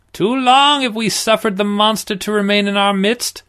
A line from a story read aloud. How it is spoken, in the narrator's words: the priest cried